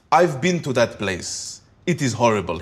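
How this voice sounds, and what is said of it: Put-on African accent. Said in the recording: “He used to do the African accent.”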